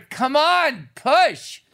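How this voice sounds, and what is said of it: Yelling. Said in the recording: “I'm yelling”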